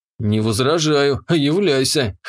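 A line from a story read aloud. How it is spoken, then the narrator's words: Snorting. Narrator (Russian): хмыкнул я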